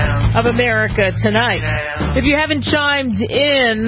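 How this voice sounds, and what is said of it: Usual voice. Nothing is said of it.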